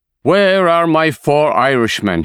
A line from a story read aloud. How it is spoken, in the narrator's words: He shouts